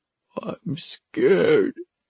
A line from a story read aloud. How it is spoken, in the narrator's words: Suni whimpered